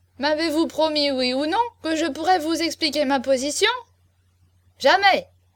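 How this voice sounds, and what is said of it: Indignant, outraged tone. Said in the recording (French): “Chaverny disait d'un accent indigné.”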